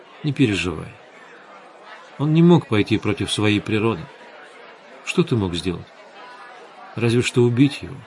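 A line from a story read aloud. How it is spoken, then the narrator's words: Quiet gentle. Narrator (Russian): Светлана тихо сказала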